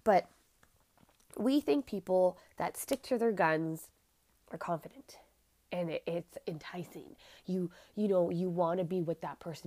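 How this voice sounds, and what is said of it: Raspy, congested nasal voice. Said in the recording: “Sorry, my nose is plugged. These allergies are killing me, so my voice will be raspy. ... Some things will not be pronounced properly because my nose is plugged”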